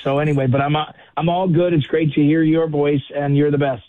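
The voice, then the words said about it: Strained, hoarse voice. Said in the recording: “losing my voice because I'm not in game shape like you are ... I'm losing my voice.”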